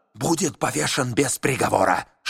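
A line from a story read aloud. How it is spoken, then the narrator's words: Hiss. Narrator (Russian): шипел майор Вольф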